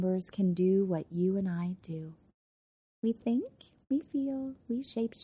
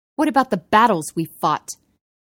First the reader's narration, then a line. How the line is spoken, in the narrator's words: He spat